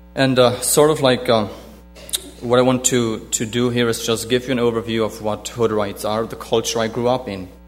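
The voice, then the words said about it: German-influenced English accent. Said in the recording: “for my accent, I am an ex-Hodorite, which I speak German ... German was my first language”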